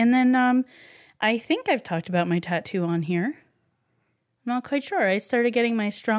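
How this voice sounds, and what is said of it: Usual voice. Nothing is said of it.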